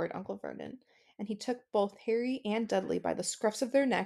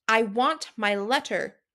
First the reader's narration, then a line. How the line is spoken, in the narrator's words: he shouted